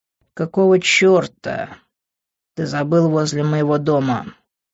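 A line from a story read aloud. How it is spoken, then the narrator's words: Growled. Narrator (Russian): рыкнул я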